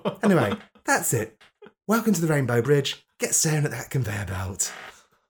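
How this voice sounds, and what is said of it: Funny camp character voice. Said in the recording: “I did it in a funny camp voice.”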